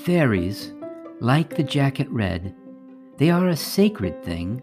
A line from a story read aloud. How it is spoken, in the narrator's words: said